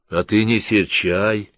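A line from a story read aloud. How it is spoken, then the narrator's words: Affectionate. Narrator (Russian): ласково тетя Поля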